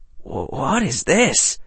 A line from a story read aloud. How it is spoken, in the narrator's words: Harry whispered